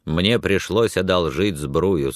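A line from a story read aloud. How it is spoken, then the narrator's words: Plain. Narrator (Russian): сказал он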